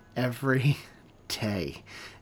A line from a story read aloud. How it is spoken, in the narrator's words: Aaron laughed